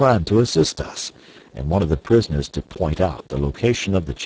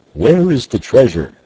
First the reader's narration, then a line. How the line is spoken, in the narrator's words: he cried to Clayton, while yet 100 feet separated them